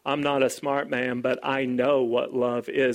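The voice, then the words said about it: Forrest Gump impression. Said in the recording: “Forrest Gump says ... terrible impersonation”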